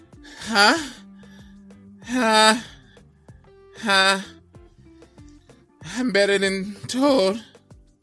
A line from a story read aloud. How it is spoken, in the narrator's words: He just barely had enough wind to bawl